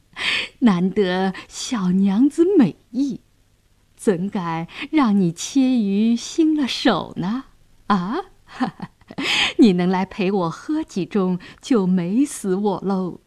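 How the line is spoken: Leering laugh. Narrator (Chinese): 杨衙内色眯眯地笑道

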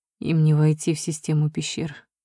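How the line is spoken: Weak-voiced reply. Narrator (Russian): слабым голосом отозвался Эридан

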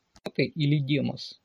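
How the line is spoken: Plain. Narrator (Russian): спросил я

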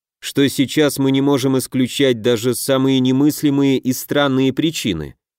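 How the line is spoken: Icy tone. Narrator (Russian): ледяным тоном произнес Дельвиг

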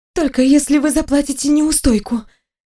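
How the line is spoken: Ragged breathless exhale. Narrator (Russian): рвано выдохнула я

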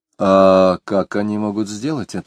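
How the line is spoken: Plain question. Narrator (Russian): спросил Самгин

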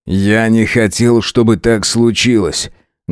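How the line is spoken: Rough. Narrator (Russian): грубо произнес он

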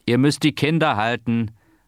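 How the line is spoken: Stoker calling out. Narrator (German): rief der Heizer

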